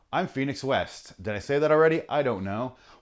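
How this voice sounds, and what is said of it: Announcer-style intro voice. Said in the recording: “started talking in my intro voice”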